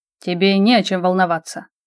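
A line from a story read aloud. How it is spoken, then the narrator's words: Calm reply. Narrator (Russian): вполне спокойно ответил его высочество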